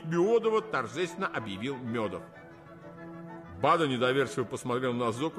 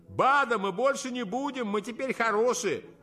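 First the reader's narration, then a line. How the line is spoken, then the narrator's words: Panting distant shout, several. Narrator (Russian): Зоки, отдуваясь, издали закричали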